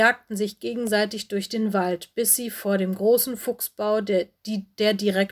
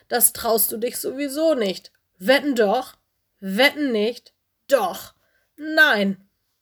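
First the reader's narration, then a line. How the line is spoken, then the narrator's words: Loud little bear roar. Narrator (German): brüllte Lenny einen lauten Mini-Bärenbrüller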